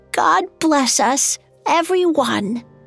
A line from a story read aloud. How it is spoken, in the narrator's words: His hand shook as he raised the cup and exclaimed in a frail voice